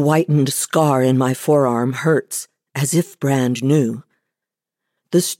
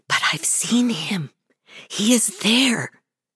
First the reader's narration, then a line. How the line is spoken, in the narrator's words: she whispered, stubborn